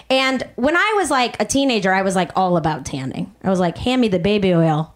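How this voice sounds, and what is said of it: Chicago accent. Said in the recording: “I'm from Chicago originally... you knew from this accent... it's Chicago.”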